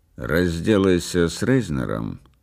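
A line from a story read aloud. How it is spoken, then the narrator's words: Calm businesslike tone. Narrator (Russian): продолжала Делла спокойным деловым тоном, словно речь шла о прогнозе погоды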